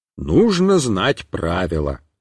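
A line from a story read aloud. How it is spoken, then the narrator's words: Father's stern voice. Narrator (Russian): сказал папа строго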